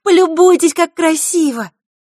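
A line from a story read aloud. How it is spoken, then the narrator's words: Exclamation. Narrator (Russian): воскликнуть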